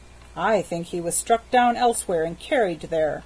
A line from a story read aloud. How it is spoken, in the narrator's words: said the porter